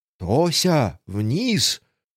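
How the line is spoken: Hissing aunt. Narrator (Russian): прошипела тетушка

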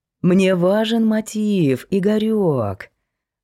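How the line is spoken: Singsong. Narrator (Russian): произнес он нараспев

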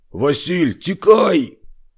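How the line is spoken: Yelled at full voice. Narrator (Russian): заорал Григорий во все горло

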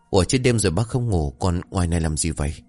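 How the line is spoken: Frightened, puzzled question. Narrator (Vietnamese): Thế ông trong bộ dạng sợ hãi nên làm lạ liền hỏi

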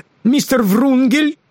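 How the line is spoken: Sudden exclamation. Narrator (Russian): воскликнул он неожиданно

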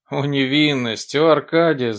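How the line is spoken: Malicious laughing retort. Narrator (Russian): злобным хохотом возразил Авдей

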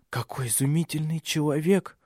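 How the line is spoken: Whisper. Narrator (Russian): прошептала старшая

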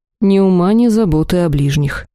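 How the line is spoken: Sighing. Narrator (Russian): вздохнул оборотень

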